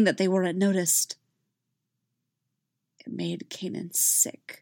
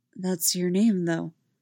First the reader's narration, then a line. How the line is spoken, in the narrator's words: said softly